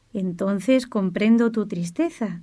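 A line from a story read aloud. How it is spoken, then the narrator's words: Plain. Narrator (Spanish): dijo Francisco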